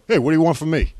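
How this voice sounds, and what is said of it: Put-on Jersey accent. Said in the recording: “speaking like a Jersey accent”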